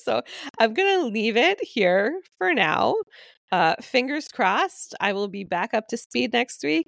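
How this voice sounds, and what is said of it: Sick, worsening voice from chest cold. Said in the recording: “I'm still recovering from this chest cold RSV situation, and you can probably hear that my voice is getting worse and worse”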